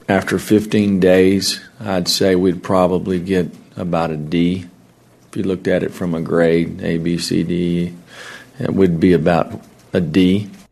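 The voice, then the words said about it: Matthew McConaughey-like accent. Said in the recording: “What's with the Matthew McConaughey accent?”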